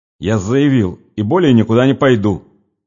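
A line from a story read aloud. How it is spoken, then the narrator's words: Said angrily. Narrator (Russian): сердито проговорил Нехлюдов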